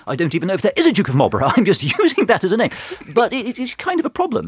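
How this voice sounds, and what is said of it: Posh English accent. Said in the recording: “Do Irish people think you are posh because of your accent ... I think I'm posh because of my accent ... I sound like the Duke of Marlborough”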